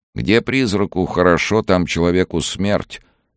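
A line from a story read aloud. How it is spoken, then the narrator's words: Gloomy reply. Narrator (Russian): мрачно ответил тот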